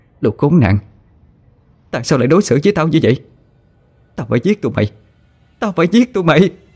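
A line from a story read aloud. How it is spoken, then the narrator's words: Screaming, cursing, crying woman. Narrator (Vietnamese): Mợ vừa gào thét vừa chửi rủa ... nước mắt nóng hổi tuôn trào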